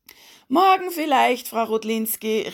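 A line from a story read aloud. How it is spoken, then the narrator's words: Calling out. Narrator (German): rief er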